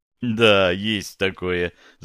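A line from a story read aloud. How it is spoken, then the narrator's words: Laughing. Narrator (Russian): засмеялся я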